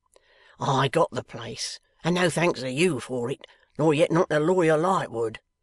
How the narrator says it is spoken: gruffly answered Riderhood

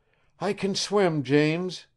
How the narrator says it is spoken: she cried

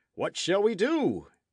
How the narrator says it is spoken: exclaimed

